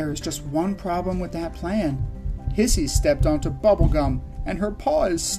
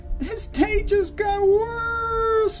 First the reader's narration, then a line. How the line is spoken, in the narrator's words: she howls